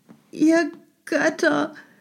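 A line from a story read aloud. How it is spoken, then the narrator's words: Pleading cry. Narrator (German): rief sie flehend, hob das schöne Haupt und richtete die Augen in hoffnungslosem Jammer zum Himmel empor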